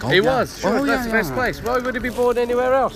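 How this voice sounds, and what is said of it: Irish County Clare accent. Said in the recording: “And you're from County Clare. I can tell immediately. ... What a lovely accent. I can tell.”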